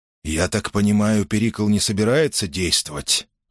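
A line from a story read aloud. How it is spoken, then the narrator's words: Quiet question. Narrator (Russian): тихо спросил Андреас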